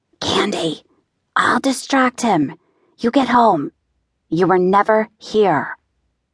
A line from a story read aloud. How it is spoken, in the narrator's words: Libby's voice whisper to me